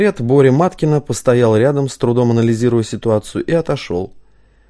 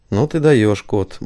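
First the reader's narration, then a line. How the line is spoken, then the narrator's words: Gruff grumble. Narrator (Russian): буркнул Виктор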